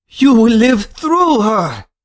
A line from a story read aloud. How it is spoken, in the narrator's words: exclaiming in the most dramatic fashion